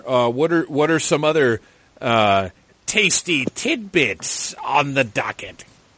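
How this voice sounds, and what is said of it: Bad Crypt Keeper character voice. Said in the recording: “worst Crypt Keeper impersonation anybody has ever done”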